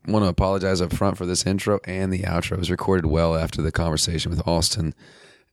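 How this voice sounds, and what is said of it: Rough, sick-sounding voice. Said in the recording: “Regardless of what my voice sounds like ... fall apparently has set in, and with that comes whatever has happened to my throat”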